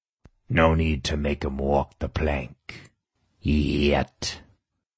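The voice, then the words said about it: Darker voice, pirate accent. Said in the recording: “My voice grew darker as I picked up a pirate accent.”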